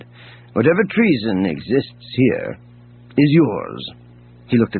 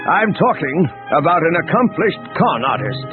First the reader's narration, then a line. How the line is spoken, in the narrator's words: Pellion said, raising his voice so that the entire bridge could hear